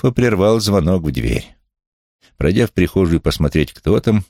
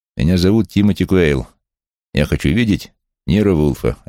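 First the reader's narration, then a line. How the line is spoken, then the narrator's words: Plain. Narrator (Russian): ответил он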